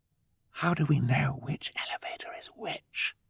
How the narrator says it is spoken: Violet whispered

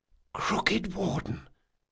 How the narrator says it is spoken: Locke whispered

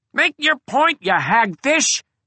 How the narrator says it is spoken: screeched the Junco

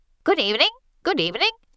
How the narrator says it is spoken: Cassandra chirps

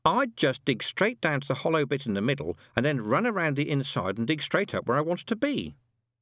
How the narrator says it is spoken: said Wensleydale, in a reasonable tone of voice

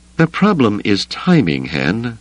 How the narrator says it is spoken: Leia said, her tone one of strained patience

